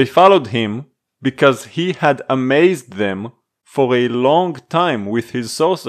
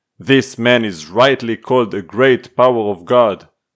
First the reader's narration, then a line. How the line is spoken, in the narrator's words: all the people, both high and low, gave him their attention and exclaimed